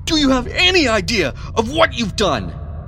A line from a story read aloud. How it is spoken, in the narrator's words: Edward roared in a mixture of anger and panic